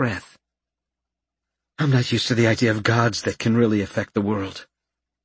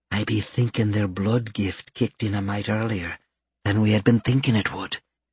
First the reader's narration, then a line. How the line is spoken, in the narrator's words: Stacia murmured softly